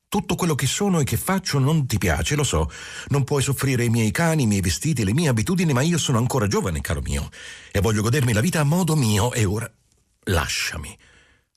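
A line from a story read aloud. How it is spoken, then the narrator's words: Exclaimed. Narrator (Italian): Ella esclamò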